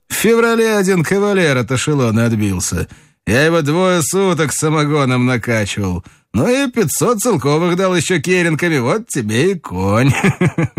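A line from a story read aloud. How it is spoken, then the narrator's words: Cheerful. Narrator (Russian): сказал весело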